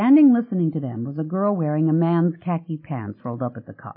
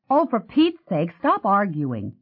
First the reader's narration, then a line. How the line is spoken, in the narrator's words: Jeannie snapped